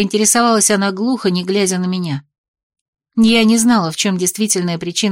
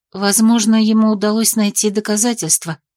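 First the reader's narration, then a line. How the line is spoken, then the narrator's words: Timid, guilty. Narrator (Russian): предположила робко, ощущая себя едва ли не предательницей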